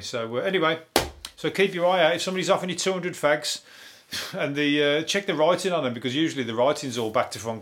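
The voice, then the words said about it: Hoarse voice. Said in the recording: “My voice is going hoarse ... I'm a little bit hoarse ... has made my voice go funny”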